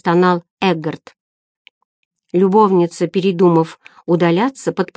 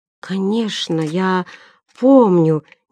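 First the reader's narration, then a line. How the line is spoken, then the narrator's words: Unsure mumble. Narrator (Russian): неуверенно пробормотал Эггард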